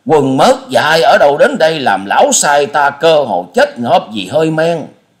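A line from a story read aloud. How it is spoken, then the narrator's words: Loud shout. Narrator (Vietnamese): Phong Trần Tuyết Khách hét to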